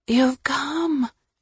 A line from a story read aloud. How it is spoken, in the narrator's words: she whispered